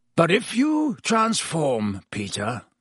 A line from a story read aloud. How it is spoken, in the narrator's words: growled Black